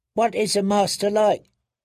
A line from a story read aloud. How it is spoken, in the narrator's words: Penny asked anxiously